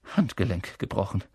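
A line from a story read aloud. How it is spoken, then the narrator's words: Murmuring. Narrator (German): hörte Harry sie murmeln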